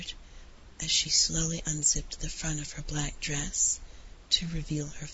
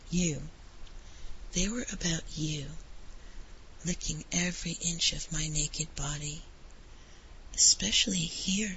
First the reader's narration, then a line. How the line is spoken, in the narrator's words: The American said in a breathy bedroom voice